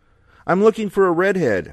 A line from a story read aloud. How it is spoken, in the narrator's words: shouted